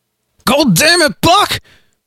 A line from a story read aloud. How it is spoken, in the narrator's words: Harley shouted again